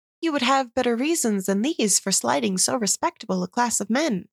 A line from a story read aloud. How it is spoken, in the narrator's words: said Mrs